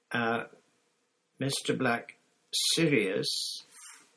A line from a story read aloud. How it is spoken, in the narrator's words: said Hermione timidly